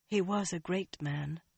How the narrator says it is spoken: Elaine said softly

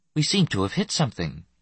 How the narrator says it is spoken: Nessus said calmly

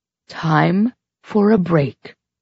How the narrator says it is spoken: Carmina said in that calm yet adamant voice of hers

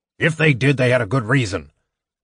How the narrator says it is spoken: the dwarf snapped

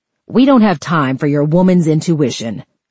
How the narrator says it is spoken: Amanda snapped

